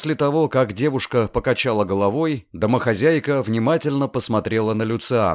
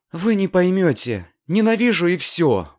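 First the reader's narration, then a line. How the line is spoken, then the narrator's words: Grim. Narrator (Russian): мрачно повторила Рода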